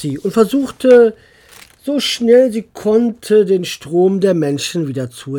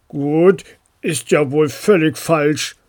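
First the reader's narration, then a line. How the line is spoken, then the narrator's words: Deep grumble from suitcase. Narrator (German): brummte eine tiefe Stimme, die scheinbar direkt vom Koffer kam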